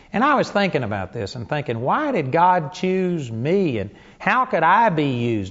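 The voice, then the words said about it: Texan country accent. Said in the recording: “I'm a hick from Texas ... I wouldn't have picked this voice.”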